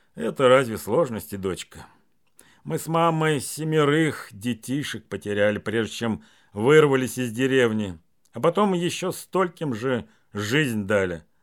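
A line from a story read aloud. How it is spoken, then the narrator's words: Calm fatherly voice. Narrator (Russian): отец спокойно сказал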